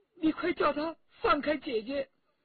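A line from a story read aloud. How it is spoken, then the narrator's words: Crying. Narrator (Chinese): 香香公主对陈家洛哭着说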